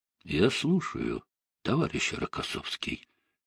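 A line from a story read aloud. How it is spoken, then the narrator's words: Quiet. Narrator (Russian): тихо произнес Сталин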